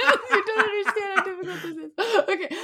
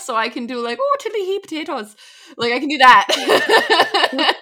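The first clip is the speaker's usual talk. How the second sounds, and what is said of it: Put-on Irish accent. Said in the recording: “I can do an Irish accent”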